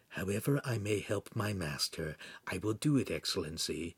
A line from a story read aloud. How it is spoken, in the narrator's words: Pan whispered in Hansum's ear